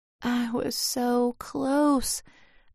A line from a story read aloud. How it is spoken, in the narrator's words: I muttered